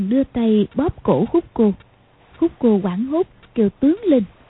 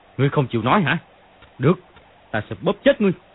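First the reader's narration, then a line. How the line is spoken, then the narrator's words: Angry. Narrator (Vietnamese): Dương Quá tức giận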